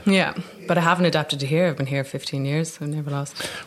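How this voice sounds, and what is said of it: Dublin Irish accent. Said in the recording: “got my dub accent and never lost it.”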